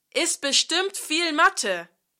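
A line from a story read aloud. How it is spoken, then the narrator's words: Calling out. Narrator (German): rief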